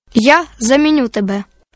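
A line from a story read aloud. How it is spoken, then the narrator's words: Plain. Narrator (Ukrainian): сказав ворон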